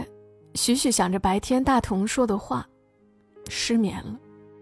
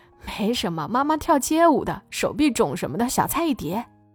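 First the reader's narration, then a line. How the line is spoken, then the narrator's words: Laughing. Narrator (Chinese): 许许笑着说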